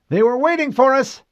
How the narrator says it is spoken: she cried

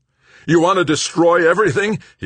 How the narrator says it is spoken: he had screamed at her

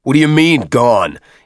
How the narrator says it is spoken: Avery shouted

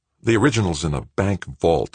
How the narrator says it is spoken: Greg said tightly

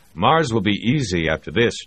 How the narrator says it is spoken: Jamie said

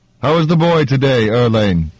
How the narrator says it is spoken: Yetamidas said, voice booming

